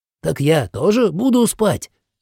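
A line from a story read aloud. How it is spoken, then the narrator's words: Exclaimed. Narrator (Russian): воскликнул Нхерка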